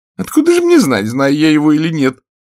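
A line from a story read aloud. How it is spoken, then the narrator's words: Whiny, tearful reply. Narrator (Russian): придя в себя плаксивым голосом, отвечала дама в голубом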